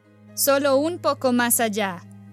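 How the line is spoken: Stepmother shouting. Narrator (Spanish): gritó la madrastra

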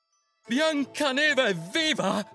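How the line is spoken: Queen shouting. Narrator (Italian): gridò la regina

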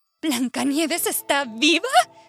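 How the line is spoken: Queen shouting. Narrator (Spanish): gritó la reina

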